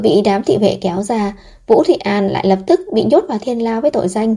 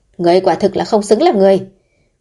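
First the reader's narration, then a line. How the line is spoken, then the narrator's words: Shouting loudly while fighting. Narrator (Vietnamese): Vũ Thụy An vừa đấm vừa đá quát lớn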